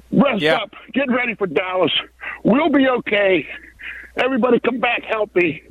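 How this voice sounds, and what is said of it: Out of breath while speaking. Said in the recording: “I'm out of breath because I'm jogging a little bit.”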